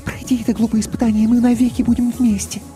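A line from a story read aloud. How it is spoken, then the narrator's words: Quick whisper. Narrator (Russian): Мийка быстро шепнула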